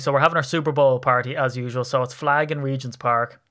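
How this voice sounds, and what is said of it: Irish accent. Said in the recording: “from myself in an Irish accent”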